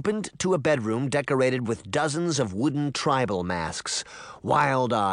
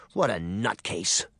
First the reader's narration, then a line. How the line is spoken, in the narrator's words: she muttered